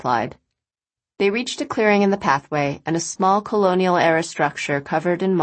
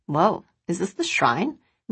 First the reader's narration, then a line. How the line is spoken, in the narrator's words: Rachel asked, lowering her voice